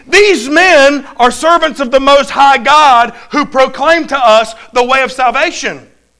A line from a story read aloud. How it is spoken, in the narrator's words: This girl cried out saying